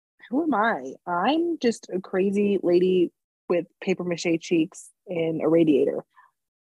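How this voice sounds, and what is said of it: Sick-sounding voice. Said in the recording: “Also, I'm sick. So that's why my voice sounds like this.”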